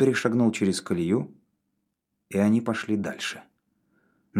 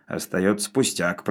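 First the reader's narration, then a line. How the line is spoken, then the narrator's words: Grumbling. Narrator (Russian): проворчал Навага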